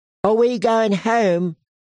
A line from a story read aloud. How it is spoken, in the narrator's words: Rickon asked excitedly